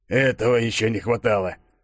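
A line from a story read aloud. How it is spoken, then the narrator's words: Boss scoffing. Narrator (Russian): хмыкнул шеф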